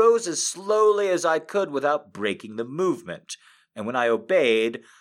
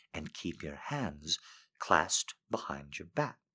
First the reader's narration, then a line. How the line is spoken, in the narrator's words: said softly